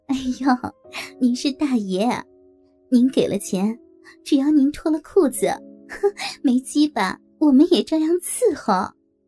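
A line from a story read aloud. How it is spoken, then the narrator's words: Flirtatious laughing. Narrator (Chinese): 浪浪地笑着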